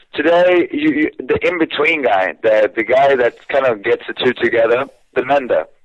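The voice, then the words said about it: Man speaking with a strong accent. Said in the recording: “I don't understand a word that comes out of his mouth. I'm normally just so enamored by your accent. I find it intoxicating.”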